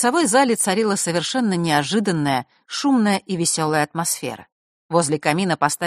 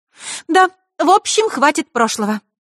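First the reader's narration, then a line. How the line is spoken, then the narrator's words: Suddenly cheerful voice. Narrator (Russian): добавила Захара совершенно другим повеселевшим голосом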